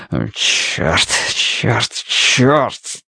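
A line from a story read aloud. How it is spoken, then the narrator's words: Quiet groaning. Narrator (Russian): Тихо стонал он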